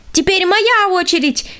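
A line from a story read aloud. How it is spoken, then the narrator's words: Shout. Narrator (Russian): крикнула она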